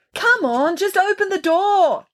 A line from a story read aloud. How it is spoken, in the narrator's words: someone was yelling, but it was muffled as if it was being yelled from the far end of the apartment